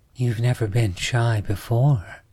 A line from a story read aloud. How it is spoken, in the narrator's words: giggled softly